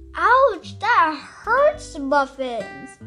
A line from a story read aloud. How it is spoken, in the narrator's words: shouted John